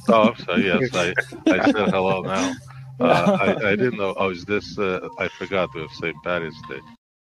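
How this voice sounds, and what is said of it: Thick accent. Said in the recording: “Not So Much a Mick, but his accent is thick”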